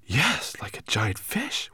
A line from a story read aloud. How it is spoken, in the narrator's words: whispered Ben